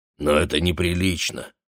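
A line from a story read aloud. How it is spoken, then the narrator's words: Grumbling. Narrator (Russian): ворчал Моше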